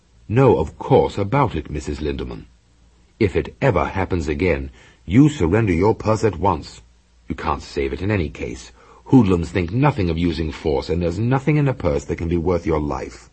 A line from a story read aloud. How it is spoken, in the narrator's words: Trumbull said firmly